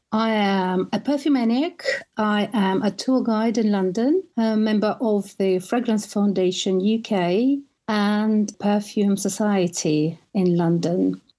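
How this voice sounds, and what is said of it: Russian accent. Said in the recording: “As you can hear, I have an accent. I'm Russian and I lived in Italy for 15 years”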